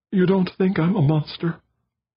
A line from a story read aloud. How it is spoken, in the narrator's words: she sobbed